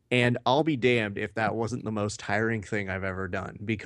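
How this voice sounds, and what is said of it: Usual voice. Nothing is said of it.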